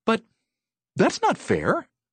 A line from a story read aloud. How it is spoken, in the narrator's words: exclaimed Betsy